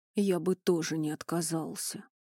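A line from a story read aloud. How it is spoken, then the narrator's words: Deep bass voice. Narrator (Russian): пробасил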